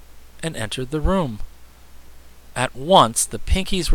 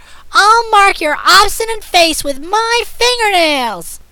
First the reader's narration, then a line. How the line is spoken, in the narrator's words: screamed Azure